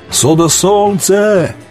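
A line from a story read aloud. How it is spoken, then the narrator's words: Boy crying and shouting. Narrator (Russian): штурман-мальчик все плакал и кричал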